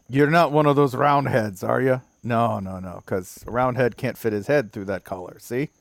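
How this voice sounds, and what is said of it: Well-done put-on accent. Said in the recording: “this might be your best accent”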